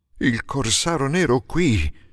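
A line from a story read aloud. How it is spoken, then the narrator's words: Strongly trembling exclamation. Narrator (Italian): esclamò con un tremito molto accentuato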